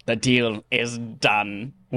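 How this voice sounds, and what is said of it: Weird put-on voice. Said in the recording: “I just did it right now myself in a weird voice.”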